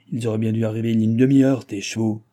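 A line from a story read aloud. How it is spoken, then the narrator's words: Growling. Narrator (French): gronda du Barry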